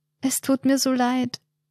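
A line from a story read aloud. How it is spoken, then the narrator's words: Weak child's voice. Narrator (German): sagt der Bub mit schwacher Stimme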